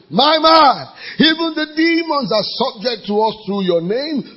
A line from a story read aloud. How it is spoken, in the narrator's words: they're shouting